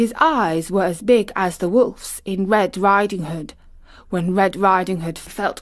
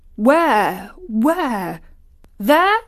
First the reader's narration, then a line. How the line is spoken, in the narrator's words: cried